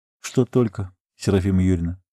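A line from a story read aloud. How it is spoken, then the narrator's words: Quiet question. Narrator (Russian): так же тихо спросил парень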